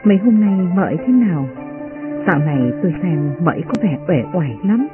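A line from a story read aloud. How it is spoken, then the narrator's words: Soft question. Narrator (Vietnamese): Uyên Ương khẽ hỏi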